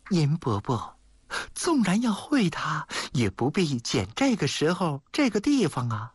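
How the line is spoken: Sighing. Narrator (Chinese): 谢小玉叹了口气

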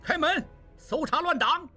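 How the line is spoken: Chaotic shouting soldiers. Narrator (Chinese): 官兵 一边乱喊

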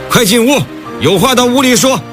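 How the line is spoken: Worried shout. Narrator (Chinese): 田墨轩心疼女儿 冲两人大喊

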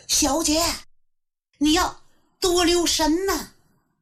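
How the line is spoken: Anxious women soldiers shouting. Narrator (Chinese): 他手下的女兵们提心吊胆，连连喊叫

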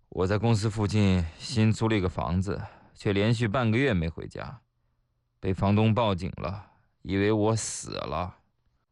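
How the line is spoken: Long sigh. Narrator (Chinese): 一哥们儿悠悠地叹了口气

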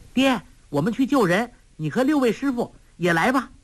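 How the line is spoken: Smiling call. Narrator (Chinese): 黄蓉嫣然一笑，叫道

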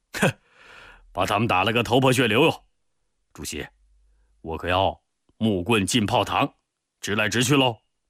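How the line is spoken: Grinning. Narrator (Chinese): 彭德怀咧嘴笑了

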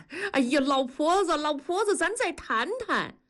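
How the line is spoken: Limping pleading call. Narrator (Chinese): 一瘸一拐的跟在后面喊

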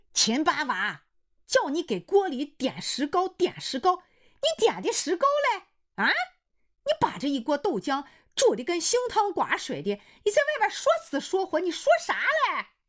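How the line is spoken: Wife shouting from inside. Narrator (Chinese): 他老婆在里边喊

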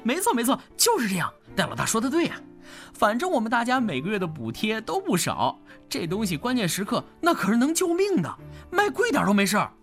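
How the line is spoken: Chuckling. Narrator (Chinese): 奥斯卡呵呵一笑

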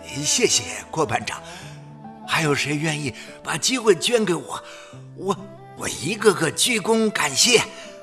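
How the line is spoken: Murmuring. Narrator (Chinese): 姜黄 有了微茫的希望 口中喃喃说

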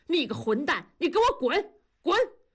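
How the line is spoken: Furious roar. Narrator (Chinese): 同志跳着脚吼

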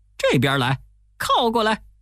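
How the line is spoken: Calling insistently. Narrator (Chinese): 一个劲儿地叫

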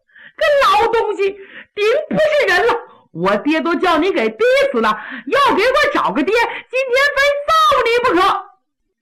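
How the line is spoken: Crying, shouting, cursing. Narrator (Chinese): 杨宗勉是连哭带喊带骂

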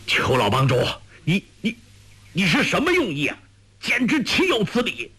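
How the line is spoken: Angry. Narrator (Chinese): 简长老怒道

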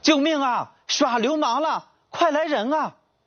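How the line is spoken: Shouting for help. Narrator (Chinese): 呼喊声

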